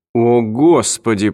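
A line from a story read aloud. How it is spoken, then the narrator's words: Groaning. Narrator (Russian): простонал Марти Брен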